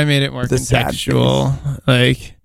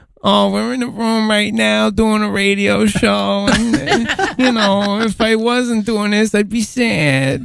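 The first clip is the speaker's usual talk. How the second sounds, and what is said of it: Sad cartoon character voice. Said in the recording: “the voice that you use now ... a sad cooler ... It's kind of like the turtle from Rocko's Modern Life, a little bit.”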